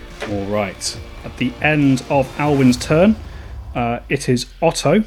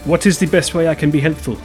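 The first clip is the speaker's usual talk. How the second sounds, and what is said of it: Put-on character accent. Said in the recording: “That's not his accent at all. I shouldn't do accents.”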